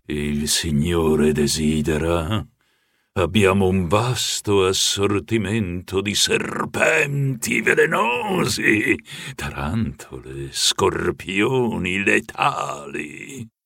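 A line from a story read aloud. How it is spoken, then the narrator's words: Sepulchral voice. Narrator (Italian): Con una voce da oltretomba mi disse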